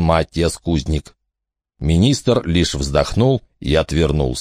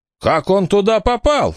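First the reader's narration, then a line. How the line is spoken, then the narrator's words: Shouted. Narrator (Russian): закричал немецкий министр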